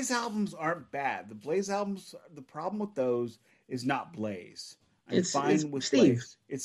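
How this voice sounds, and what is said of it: Usual voice. Nothing is said of it.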